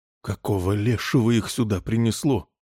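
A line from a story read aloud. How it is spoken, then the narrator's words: Frightened exclamation. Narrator (Russian): испуганно воскликнул Джо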